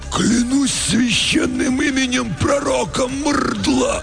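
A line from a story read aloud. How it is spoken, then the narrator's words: Strangled wheeze, two voices. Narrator (Russian): В унисон просипели оба десантника перехваченными горлами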